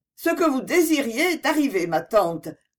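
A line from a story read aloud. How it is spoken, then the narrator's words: Curt. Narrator (French): lui dit-elle d'une voix brève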